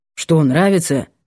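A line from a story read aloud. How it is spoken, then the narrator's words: Grumbled. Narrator (Russian): буркнул Воробушек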